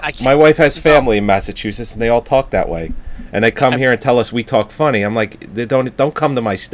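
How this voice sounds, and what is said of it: Usual voice. Nothing is said of it.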